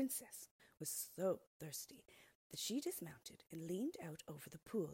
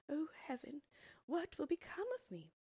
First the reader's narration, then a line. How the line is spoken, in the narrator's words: Her tears fell into the water as she cried